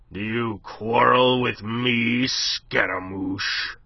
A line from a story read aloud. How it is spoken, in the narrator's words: Thunder was rumbling in his deep voice